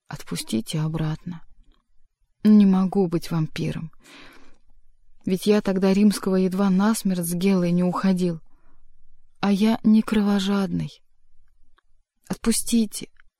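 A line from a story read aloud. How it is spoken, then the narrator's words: Quiet, sighing. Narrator (Russian): Варенуха вздохнул и тихо сказал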